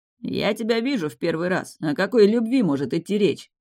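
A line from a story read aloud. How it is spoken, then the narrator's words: Skeptical snort. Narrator (Russian): хмыкнул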